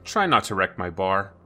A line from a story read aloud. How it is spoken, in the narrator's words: Max said dryly